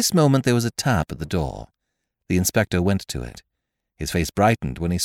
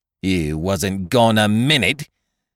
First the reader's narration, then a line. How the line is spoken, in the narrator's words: retorted the chambermaid angrily